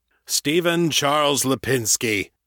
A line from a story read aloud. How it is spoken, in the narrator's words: Galvero intoned